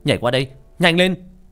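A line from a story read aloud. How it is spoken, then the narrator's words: Sudden urgent shout. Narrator (Vietnamese): Bỗng Sinh hiểu ra ý gì đó, hét lên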